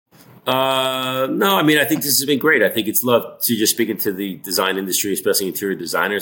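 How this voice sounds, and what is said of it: New York accent. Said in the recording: “my old New York accent”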